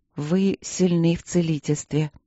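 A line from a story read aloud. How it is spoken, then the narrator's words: Absent-minded, soft, princess. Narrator (Russian): рассеянно проговорила принцесса, мягко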